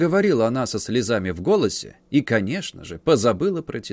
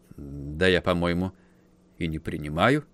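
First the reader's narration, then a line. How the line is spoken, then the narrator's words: Weary, irritated muttering. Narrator (Russian): пробормотал Ка, ощутив внезапную усталость и прилив раздражения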